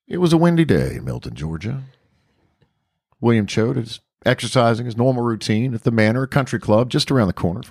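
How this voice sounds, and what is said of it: Keith Morrison narrator impression. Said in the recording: “You want to start like Keith Morrison? ... Do your Keith Morrison voice.”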